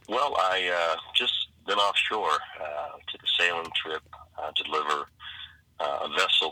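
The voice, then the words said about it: Sore, hoarse voice. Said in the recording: “your voice is a little sore, got a little bronchitis going on”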